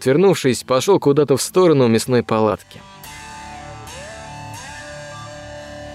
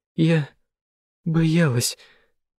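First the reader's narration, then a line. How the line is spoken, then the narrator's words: Sobbing, forced out. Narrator (Russian): всхлипывая, выдавила Лена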